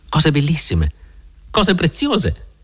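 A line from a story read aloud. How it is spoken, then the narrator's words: Excited little girl shouting. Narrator (Italian): gridò entusiasta la bambina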